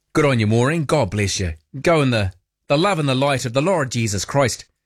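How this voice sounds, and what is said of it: Put-on Irish accent. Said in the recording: “I broke into an Irish accent there.”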